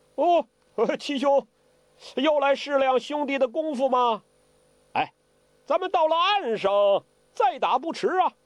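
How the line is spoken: Amused laugh. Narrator (Chinese): 见侄子落入他的手里，当即也笑了

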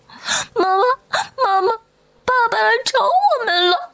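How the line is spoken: Crying children. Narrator (Chinese): 两个孩子哭着扑过来说

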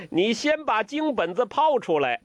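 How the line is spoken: Laughing. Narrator (Chinese): 欧阳克笑了

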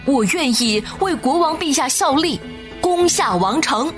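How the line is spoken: Loud shout. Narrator (Chinese): 阿里萨 他大声喊道

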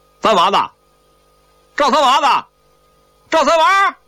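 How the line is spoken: Calling out. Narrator (Chinese): 一个老乡……站在门口喊起来

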